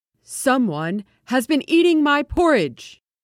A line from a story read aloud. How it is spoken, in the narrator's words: In his great big voice, he roared